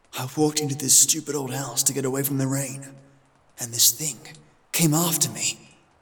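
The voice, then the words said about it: Frightened whisper. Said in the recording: “I have to whisper, or it will hear me.”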